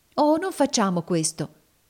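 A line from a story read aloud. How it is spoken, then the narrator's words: Exclaimed. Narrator (Italian): esclamò Emmelina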